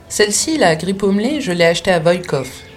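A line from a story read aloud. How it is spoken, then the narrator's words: Plain. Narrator (French): dit le maître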